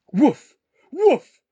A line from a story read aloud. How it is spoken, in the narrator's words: barked the dog